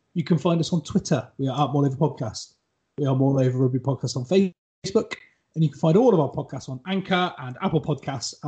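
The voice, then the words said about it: West Country English accent. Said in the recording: “with a West Country accent”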